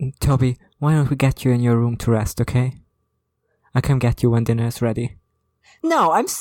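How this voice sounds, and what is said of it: Usual voice. Nothing is said of it.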